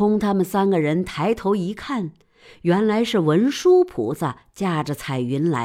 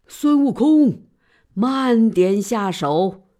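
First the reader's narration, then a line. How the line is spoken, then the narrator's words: Loud shout. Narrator (Chinese): 有人大叫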